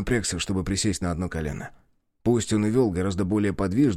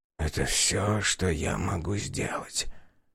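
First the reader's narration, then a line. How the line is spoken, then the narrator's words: Strained mumble. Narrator (Russian): пробормотал он, с трудом поднимаясь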